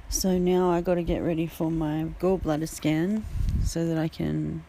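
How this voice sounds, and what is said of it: Voice strained by sore throat. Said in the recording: “I've got a sore throat”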